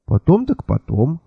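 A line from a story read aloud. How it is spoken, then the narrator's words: Confused. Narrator (Russian): растерянно кивнул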